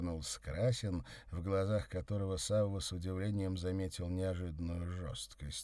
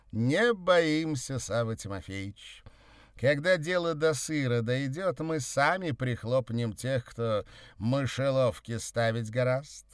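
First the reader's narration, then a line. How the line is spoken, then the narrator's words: Cheerful. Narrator (Russian): весело сказал Красин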